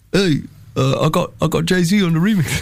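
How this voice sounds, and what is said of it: Imitates another person's voice. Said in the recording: “My impression... It's like he's right here with us.”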